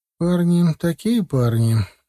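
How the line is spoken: Displeased drawl. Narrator (Russian): недовольно протянула Лера

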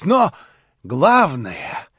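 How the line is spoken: Whispering. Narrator (Russian): зашептал он опять

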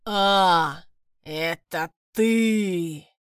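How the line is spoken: Grinding, stony growl. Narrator (Russian): Прорычал дракон, и голос его заскрипел, будто друг от друга терлись два больших камня

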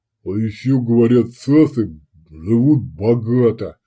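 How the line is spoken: Offended drawl over phone. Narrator (Russian): обиженно протянул трубка

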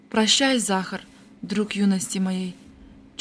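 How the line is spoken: Barely audible. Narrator (Russian): Чуть слышно проговорил Рульков

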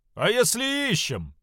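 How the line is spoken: Peasant man shouting. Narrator (Russian): выкрикнул один из мужиков

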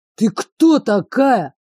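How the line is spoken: Roar. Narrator (Russian): взревел

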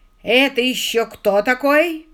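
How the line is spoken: Roaring. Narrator (Russian): взревел

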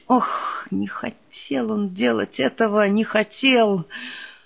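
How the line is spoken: Grumbling. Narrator (Russian): буркнул Осянина

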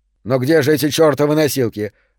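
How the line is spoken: Irritated. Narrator (Russian): раздраженно произнес надзиратель

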